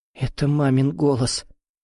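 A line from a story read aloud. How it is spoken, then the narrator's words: Confused mumble. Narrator (Russian): пробормотала Виола, растерянно хлопая мокрыми ресницами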